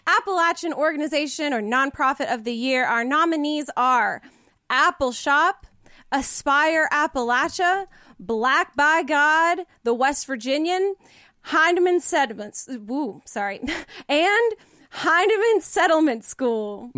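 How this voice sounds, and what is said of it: Regional Appalachian accent slipping through. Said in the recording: “a little bit of Haywood County accent sneak back in there for a hot second ... when you get excited about organizations, that's when it comes out”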